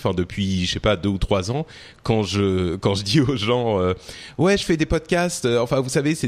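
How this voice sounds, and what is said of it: Usual voice. Nothing is said of it.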